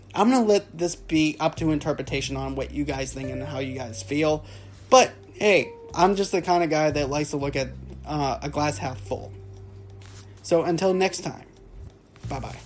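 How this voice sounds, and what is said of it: Hoarse, strained voice giving out. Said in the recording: “my voice is actually going out a little bit”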